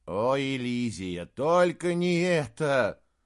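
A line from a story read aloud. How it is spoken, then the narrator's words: Groan. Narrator (Russian): Саймон застонал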